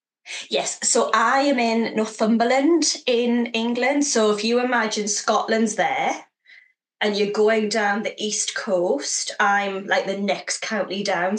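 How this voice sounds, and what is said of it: Northumbrian accent with slight Scottish twang. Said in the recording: “accent has a little bit of Scot in it? ... there's a twang in there ... There is a twang. Just a slight one ... the Scottish twang”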